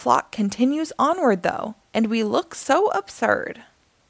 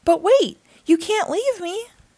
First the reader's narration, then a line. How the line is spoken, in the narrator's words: cry and holler